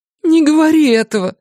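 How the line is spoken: Pleading. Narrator (Russian): взмолилась Фрэнни

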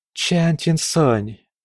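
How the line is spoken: Whispered. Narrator (Russian): прошептала Лун Чэнь

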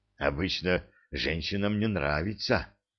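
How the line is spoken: Hoarse voice. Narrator (Russian): хрипло проговорил Симон

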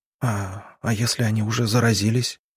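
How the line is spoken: Quiet question. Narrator (Russian): тихо спросила она

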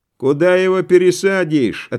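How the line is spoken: Cossacks answering, then laughing. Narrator (Russian): ответили казаки и засмеялись

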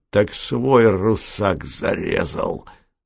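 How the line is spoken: Hoarse wheezing. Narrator (Russian): захрипел

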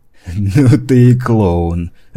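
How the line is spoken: Amused after laughing. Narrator (Russian): отсмеявшись, выдал Гурбан

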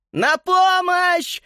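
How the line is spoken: Panicked screaming. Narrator (Russian): в панике завопила Эленора

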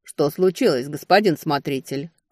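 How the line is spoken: Shouted. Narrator (Russian): крикнул Элрой

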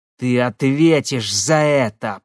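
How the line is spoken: Hissed. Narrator (Russian): прошипел Марат

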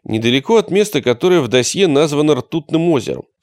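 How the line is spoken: Plain. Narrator (Russian): сказал Комар

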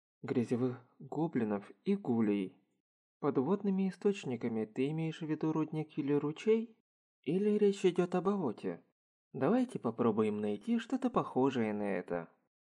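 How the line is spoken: Plain. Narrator (Russian): сказал Маната

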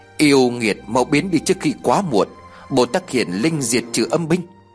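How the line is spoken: Muttered. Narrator (Vietnamese): miệng tôi lẩm bẩm

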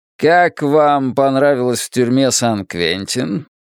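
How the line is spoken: Lazy question. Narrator (Russian): поинтересовался он, лениво выпуская клубы дыма

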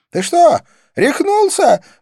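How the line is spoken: Shriek. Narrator (Russian): взвизгнула она

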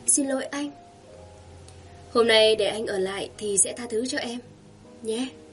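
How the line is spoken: Soft voice. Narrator (Vietnamese): Cô nhỏ giọng nói

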